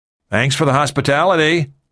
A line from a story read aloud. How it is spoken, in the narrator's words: Michaels shouted